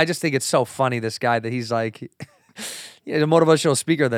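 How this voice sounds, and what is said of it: Usual voice. Nothing is said of it.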